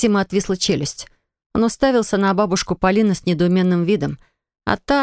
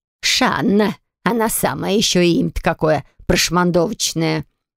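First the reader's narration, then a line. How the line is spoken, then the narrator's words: Stern, through gritted teeth. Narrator (Russian): Максим моментально посерьезнел, процедил строго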